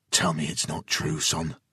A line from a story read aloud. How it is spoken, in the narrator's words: Jason pled quietly